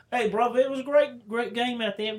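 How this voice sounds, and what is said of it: Mock British accent. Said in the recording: “Most of our guys speak in a British accent.”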